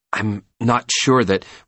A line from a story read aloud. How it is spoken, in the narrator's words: Megan stammered